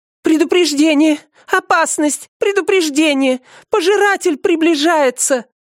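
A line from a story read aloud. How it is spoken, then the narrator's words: Panicked scream. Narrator (Russian): закричала она, явно охваченная паникой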